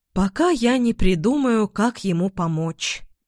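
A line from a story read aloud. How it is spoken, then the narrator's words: Repentant sigh. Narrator (Russian): покаянно вздохнула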